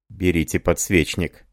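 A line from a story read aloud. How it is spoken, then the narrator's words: Quiet commanding. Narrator (Russian): сказал тихо, но повелительно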